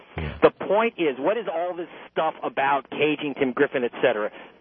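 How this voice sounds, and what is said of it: American accent. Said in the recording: “you know that from my accent. I ain't British. ... I'm American.”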